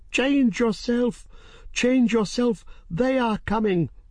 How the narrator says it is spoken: Serret shrieked

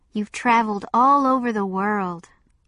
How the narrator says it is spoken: said dreamily

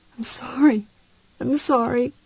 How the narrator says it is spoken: kept murmuring as he cried

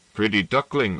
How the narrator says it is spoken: said San Giusto

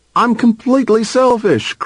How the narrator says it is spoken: cried Bean in protest

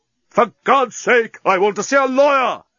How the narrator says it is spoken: Leovinus screamed at the top of his voice

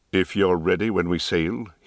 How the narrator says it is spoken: he said, as coldly as before

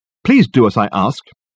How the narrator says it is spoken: he snapped angrily

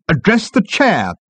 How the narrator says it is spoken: snapped the management consultant

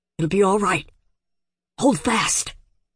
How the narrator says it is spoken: Lev whispered, not knowing what he was saying

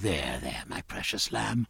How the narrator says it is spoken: Sophie whispering

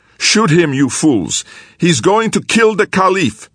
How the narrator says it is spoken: he shouted at the guards

